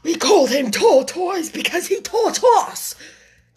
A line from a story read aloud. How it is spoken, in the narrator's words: said the Mock Turtle angrily